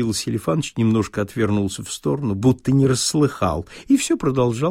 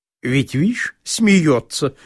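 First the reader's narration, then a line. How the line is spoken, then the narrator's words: Spiteful. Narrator (Russian): продолжал Лупихин, злобно глядя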